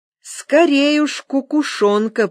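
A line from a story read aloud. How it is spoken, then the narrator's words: Drawn-out. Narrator (Russian): протянул я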